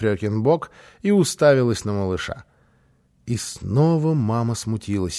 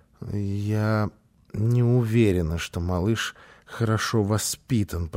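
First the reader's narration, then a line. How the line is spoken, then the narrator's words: Muttering. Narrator (Russian): пробормотала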